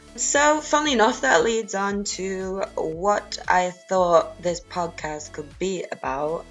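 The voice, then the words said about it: Faded American accent mixed with Scouse. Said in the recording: “you got a funny accent ... an old faded American accent mixed with Scouse sounds Irish”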